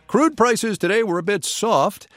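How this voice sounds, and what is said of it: Imitates his own newscaster delivery. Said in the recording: “That was me imitating myself”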